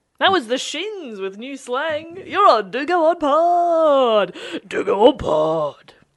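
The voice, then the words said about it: Commercial radio DJ voice. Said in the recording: “That's contagious, right. That commercial radio voice.”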